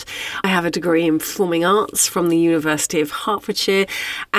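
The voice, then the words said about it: British accent. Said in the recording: “I grew up in the UK. You can probably tell that by the accent.”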